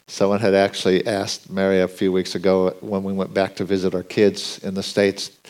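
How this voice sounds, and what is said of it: American accent. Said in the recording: “I grew up in the U.S., ... I think my accent gives me away.”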